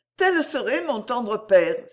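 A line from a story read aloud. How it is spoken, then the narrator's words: Exclaimed. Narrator (French): s'écria-t-elle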